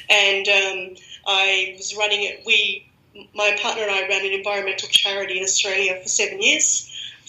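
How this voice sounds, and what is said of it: Australian accent. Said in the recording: “I'm Australian, as everyone can guess by my accent”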